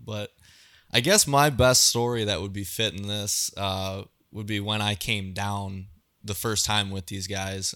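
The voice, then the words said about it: Wisconsin accent. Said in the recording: “that accent's from... I grew up in Southwest Wisconsin... I do get a little bit of crap about the accent”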